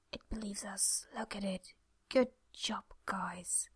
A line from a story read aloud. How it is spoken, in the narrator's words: Jack waited, then whispered